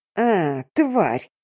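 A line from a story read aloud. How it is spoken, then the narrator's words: Wailing in pain, then hissing. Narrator (Russian): заголосил он, морщась от боли, прошипел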